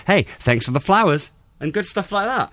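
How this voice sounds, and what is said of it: Put-on American accent. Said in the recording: “An American accent.”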